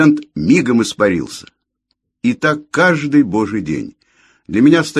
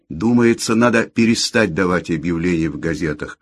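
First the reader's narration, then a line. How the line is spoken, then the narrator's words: Timid advice. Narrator (Russian): робко посоветовал я хозяйке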